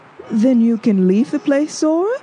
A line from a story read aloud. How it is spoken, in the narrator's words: She exclaimed gladly